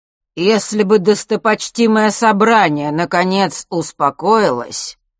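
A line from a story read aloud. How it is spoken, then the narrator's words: Loud, clear, over the din. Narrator (Russian): перекрывая гул, неожиданно громко и четко произнес Астариус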